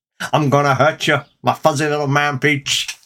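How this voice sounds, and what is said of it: Imitates a comedy character's voice. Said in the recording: “I didn't get it when the admittedly funny Noel Fielding did it. I really don't get it when you do it.”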